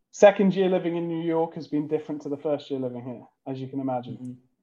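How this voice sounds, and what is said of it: British accent. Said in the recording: “British accent. It's not fake.”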